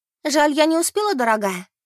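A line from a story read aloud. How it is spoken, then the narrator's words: Exclaiming. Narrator (Russian): воскликнула Бет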